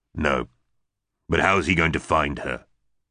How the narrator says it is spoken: gave a disparaging grunt

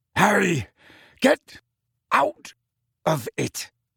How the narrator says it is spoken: snarled Sirius

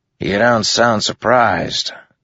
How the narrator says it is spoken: Teft said with a grunt

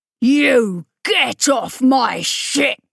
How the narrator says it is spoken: Rollo roared back furiously

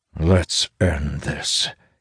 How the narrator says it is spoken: growls

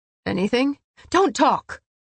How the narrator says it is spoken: Cassian grunted

